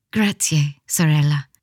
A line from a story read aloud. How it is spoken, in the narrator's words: said in a small voice